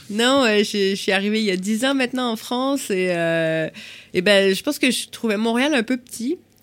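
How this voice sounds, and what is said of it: Slight Québécois French accent. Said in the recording (French): “tu avais un léger accent québécois”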